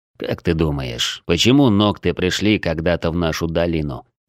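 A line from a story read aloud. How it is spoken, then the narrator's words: Plain. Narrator (Russian): спросил он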